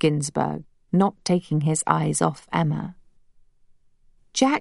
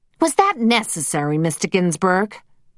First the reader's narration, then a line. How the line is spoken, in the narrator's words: snapped Alistair